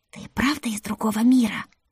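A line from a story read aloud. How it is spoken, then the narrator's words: Loud whisper. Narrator (Russian): громким шепотом спросила Маривелла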